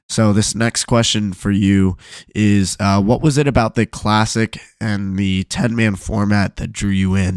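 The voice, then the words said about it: Strained, worn-out voice. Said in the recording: “my voice isn't doing so hot today”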